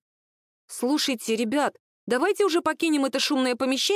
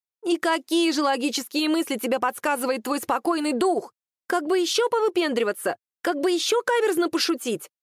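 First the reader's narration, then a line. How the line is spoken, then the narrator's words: Thin near-shriek. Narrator (Russian): Почти визжала Анька своим тоненьким голосочком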